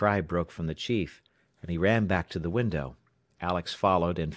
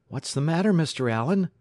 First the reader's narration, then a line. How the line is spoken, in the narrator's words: he exclaimed